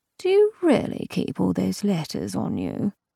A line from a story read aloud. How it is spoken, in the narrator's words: sleepily, she asked